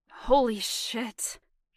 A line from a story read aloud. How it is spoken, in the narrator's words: he said roughly